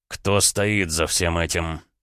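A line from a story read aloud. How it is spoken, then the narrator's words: Cold question. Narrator (Russian): холодно спросил Гаранин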